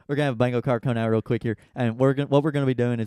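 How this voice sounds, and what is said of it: Fast-talking put-on country accent. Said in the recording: “whenever I do a country accent, I start talking really fast while doing it.”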